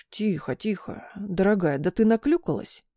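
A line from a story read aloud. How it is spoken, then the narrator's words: Whisper in the ear. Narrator (Russian): прошептал ей на ухо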